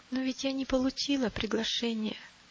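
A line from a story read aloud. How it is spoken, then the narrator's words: Timid. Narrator (Russian): робко проговорила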